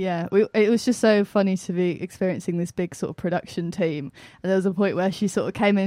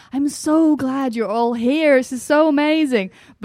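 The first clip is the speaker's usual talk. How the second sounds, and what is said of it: Put-on American accent. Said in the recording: “It was a lovely American accent”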